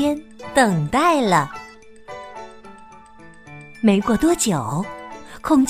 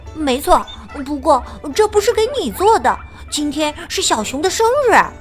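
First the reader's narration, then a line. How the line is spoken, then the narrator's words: Hurried. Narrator (Chinese): 小猪急忙说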